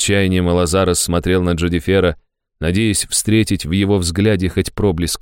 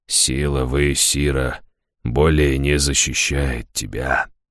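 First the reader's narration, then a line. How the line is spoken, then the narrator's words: Quiet and bitter. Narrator (Russian): тихо, с горечью проговорил он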